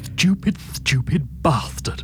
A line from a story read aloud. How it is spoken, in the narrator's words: she hissed peevishly